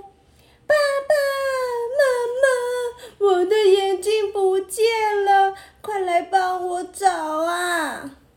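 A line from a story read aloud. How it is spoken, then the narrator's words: Loud wailing cry. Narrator (Chinese): 她立刻像往常一样放声大哭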